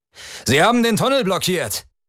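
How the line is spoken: Calling out. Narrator (German): rief Dorello dem General zu

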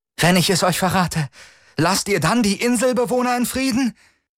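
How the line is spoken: Calling out. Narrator (German): rief sie

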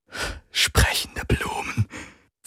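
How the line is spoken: Whispered with a laugh. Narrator (German): flüsterte Lian und lachte

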